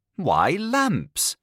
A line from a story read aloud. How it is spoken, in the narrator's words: exclaimed Barbuk's brothers, starting from his chair